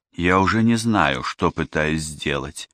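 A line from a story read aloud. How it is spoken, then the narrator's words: Weary remark. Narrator (Russian): устало заметила Ева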